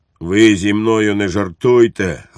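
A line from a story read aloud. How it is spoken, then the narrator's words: Barked harshly. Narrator (Ukrainian): гаркнув підпоручник Дуб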